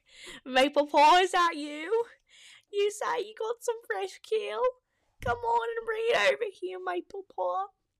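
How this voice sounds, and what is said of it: Put-on British accent, elderly character. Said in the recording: “I just said that in a British accent. It just sounds better for an elder.”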